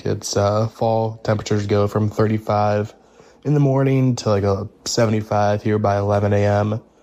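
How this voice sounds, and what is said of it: Congested, sick-sounding voice. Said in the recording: “Apologize if I sound sick... So sinuses are all fucked up.”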